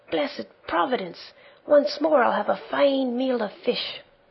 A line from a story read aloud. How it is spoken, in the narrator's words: he cried out joyfully